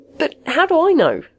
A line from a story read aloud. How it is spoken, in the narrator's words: Magnuson pleaded